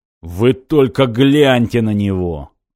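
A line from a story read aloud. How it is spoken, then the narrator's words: Drunken barking shout. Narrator (Russian): гаркнул Саггетти-младший и пьяно захохотал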